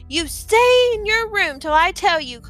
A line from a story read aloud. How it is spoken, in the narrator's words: Clarice shouted after her